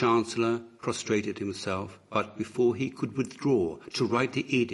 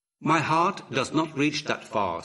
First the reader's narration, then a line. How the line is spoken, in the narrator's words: said Horus